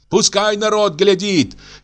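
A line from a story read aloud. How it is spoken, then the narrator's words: Shouted. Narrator (Russian): кричала Аксинья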